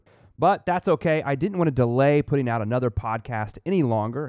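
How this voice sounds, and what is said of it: Slightly congested voice. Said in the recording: “I sound a little congested,... Oklahoma trees are trying to murder me”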